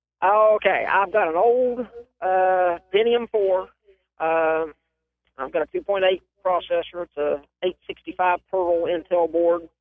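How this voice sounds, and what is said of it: Tennessee Southern accent. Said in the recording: “I'm from Tennessee because I don't have a bit of an accent... I wouldn't say that... Sound like you come from somewhere.”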